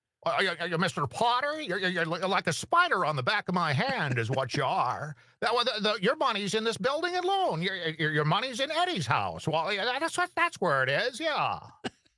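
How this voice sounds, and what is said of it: Imitates another person's voice. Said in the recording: “I do a little Jimmy Stewart impression.”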